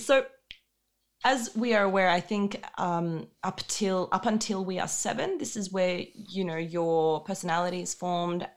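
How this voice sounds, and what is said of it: Australian accent. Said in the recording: “it would sound to me as I'm calling you from Sydney because you, you, you retain the accent and you just sound Australian.”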